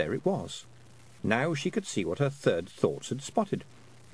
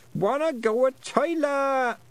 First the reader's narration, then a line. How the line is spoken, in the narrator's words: Wentworth rolled away, yelling